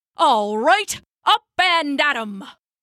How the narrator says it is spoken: barked Old Pap, shouting the sheep awake

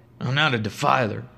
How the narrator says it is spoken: I mumbled back to no one

